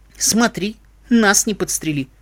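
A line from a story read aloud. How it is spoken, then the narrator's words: Ironic snort. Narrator (Russian): иронично хмыкнула Катька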